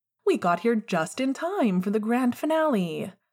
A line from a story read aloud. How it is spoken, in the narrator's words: James said brightly